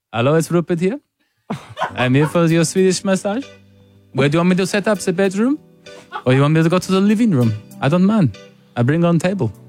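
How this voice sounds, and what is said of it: Unconvincing put-on foreign accent. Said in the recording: “The accent just doesn't hit, does it? ... Not at all.”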